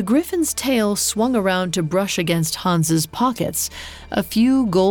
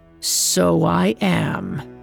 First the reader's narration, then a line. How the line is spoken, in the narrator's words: growled